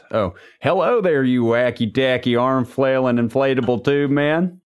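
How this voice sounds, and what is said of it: Put-on Southern cowboy accent. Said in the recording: “Cowboy down south accent.”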